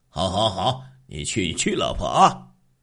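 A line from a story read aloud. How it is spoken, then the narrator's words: Chuckling. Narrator (Chinese): 李刚嘿嘿的笑着说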